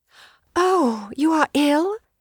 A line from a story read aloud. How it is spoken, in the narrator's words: she gasped